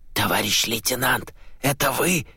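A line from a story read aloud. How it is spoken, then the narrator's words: Muffled whisper. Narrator (Russian): глухо прошептали в спину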